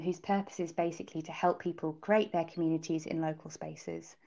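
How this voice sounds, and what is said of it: British accent. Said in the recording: “as you can probably tell from my accent, I am a native um, from I'm originally from the UK”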